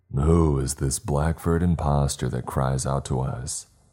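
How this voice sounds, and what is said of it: Deep voice. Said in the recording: “came a deep voice”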